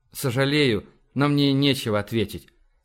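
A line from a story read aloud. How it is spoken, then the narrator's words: Very soft, almost tender. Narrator (Russian): сказал Эндрю очень мягко, почти ласково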